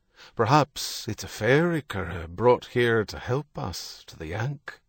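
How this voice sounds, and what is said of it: Accented character voice, spiteful undertone. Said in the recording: “John heard the McCarthy grandfather's accent in Herity, but there was an undercurrent of spitefulness in it.”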